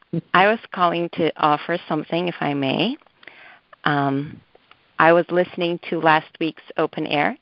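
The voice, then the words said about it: Hoarse, odd-sounding voice. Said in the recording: “My voice is a little odd because my throat is hurting.”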